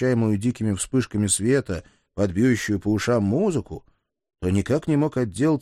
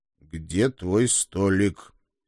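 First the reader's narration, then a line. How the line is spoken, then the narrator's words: Growl through clenched teeth. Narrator (Russian): стиснув зубы, прорычал я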